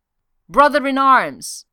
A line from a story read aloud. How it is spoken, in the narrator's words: Thor yelled